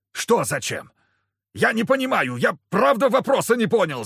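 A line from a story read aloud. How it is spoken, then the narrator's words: Panicked yell. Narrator (Russian): заорал торговец, увидев, что я поднимаю меч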